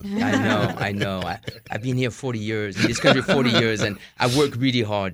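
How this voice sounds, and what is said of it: French accent. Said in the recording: “I love your fake French accent. It's fabulous.”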